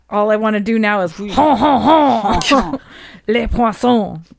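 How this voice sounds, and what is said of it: Exaggerated mock French accent. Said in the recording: “A French? Can you do a French accent, sir?”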